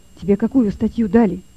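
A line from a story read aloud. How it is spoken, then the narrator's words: Quiet, into ear. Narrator (Russian): тихо сказал Лёве на ухо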